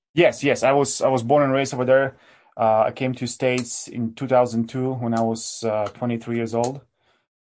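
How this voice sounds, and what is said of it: Polish accent. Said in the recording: “as people can hear, you have an accent. So you are actually from Poland originally ... I think this accent will stay with me forever.”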